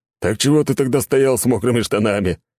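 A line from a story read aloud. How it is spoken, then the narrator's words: Laughing. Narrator (Russian): хохотнул Миха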